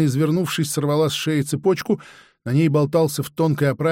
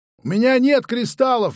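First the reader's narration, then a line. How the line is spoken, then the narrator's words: Shout. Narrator (Russian): выкрикнул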